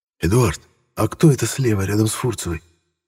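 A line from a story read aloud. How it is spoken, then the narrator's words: Quiet question. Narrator (Russian): тихо спросил я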